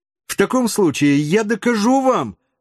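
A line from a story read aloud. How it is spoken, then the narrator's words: Excited exclamation. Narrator (Russian): воскликнул географ, всегда волновавшийся, когда ему противоречили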